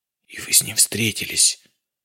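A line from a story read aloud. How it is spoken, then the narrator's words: Whispered question. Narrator (Russian): шепотом спросил Самедов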